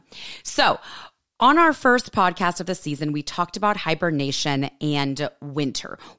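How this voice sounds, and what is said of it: Slightly hoarse, unusual voice. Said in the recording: “my voice sounds a little bit weird or different ... getting over a little bit of laryngitis ... a little extra sexy”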